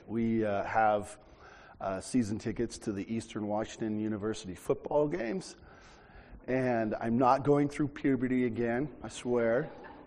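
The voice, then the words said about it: Hoarse voice. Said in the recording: “I'm a little hoarse today ... I was yelling and screaming”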